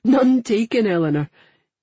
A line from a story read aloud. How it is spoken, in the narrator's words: he said, laughing